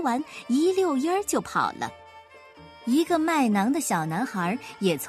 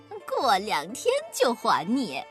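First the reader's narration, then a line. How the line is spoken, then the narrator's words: Smirking, flippant. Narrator (Chinese): 一个心术不正的骗子……嬉皮笑脸地说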